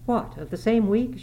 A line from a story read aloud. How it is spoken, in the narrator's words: she exclaimed